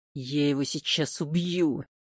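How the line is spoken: Hissed. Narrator (Russian): прошипел Хлынов

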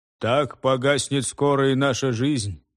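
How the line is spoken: Hollow, muffled voice. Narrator (Russian): глухим голосом ответил Кафр

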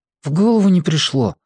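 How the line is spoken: Sighed. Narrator (Russian): вздохнул Марко

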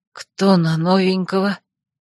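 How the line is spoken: Hoarse questioning voice. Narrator (Russian): охрипшим голосом спросила

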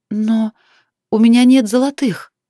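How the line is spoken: Shy, agitated girl's whisper. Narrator (Russian): смущаясь, взволнованно прошептала девушка

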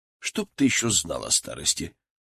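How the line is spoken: Gruff mutter. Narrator (Russian): буркнул я

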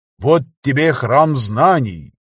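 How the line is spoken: Solemn announcement. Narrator (Russian): торжественно объявил я

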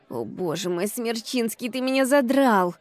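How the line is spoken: Moaning. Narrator (Russian): Простонала я

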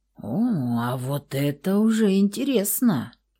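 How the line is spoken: Low muffled growl. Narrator (Russian): Заворчал у ее кожи незнакомый вамп

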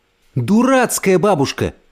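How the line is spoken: Shouting. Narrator (Russian): крикнула она

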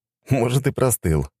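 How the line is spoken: Scoffing grunt. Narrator (Russian): хмыкнул

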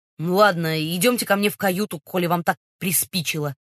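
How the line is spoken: Pompous booming drone. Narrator (Russian): важно выпятив двойной подбородок, прогудел

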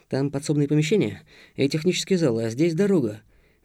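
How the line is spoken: Whispered guess. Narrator (Russian): высказал догадку шепотом Антон

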